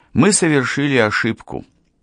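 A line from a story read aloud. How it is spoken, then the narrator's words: Sighed. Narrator (Russian): вздохнул он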